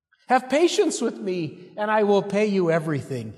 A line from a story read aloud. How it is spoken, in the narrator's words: pleads